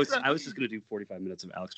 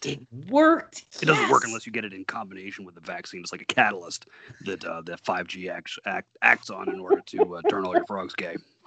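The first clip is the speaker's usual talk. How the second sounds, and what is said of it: Imitates another person's voice. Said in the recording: “That's a pretty spot on. Pretty spot on Alex Jones. ... Impression there. ... Alex Jones impersonation”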